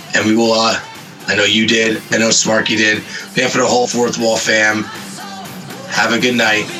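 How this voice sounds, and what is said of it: Hoarse, nearly lost voice. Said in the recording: “My voice is so gone.”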